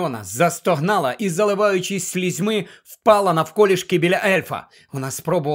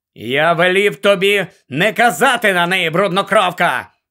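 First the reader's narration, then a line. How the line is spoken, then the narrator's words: Barked. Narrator (Ukrainian): гаркнув Гаррі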